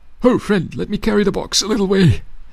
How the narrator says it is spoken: he yelled up to Eagle

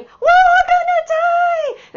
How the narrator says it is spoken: he was literally yelling

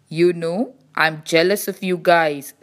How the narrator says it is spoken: said the Highway

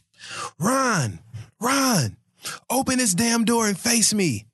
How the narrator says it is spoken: Mia yelled from the bellow of her stomach

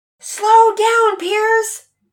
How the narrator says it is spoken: Mama Peters yelled out frantically

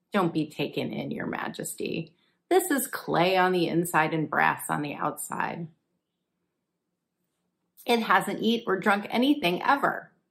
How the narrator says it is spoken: Daniel laughed and said

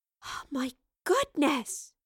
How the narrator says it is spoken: gasped

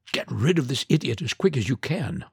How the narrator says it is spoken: whispered

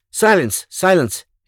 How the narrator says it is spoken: exclaimed another of the group

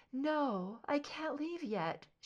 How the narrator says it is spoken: she moaned, weakly

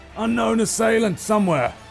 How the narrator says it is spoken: shouts out towards everybody a little further down um, the bridge and says

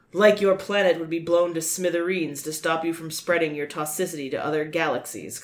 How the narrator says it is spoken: Klaatu replied coldly

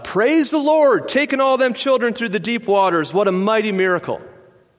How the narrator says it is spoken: one of the people in the back yelled out

